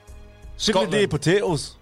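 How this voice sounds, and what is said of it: Attempted Scottish accent sounding Irish. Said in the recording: “Give us a Scottish accent. Go on. Have a go ... Ooh, Ireland. ... That's Irish.”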